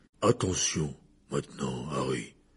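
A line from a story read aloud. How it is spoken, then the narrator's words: Low voice. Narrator (French): dit Hagrid à voix basse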